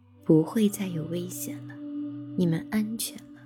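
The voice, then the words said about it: Gentle, tender voice. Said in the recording (Chinese): “用温柔的声音说”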